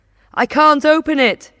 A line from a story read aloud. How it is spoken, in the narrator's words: he shouts